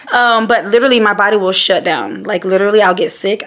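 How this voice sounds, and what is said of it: Hoarse voice going in and out. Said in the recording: “as you can hear, my voice is kind of like going in and out now. But that's from me screaming at the football games.”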